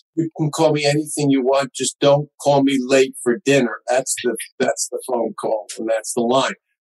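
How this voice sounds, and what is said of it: New York accent. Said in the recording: “a New Yorker. You can tell from his accent.”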